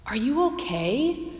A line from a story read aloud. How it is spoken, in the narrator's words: Ron asked nervously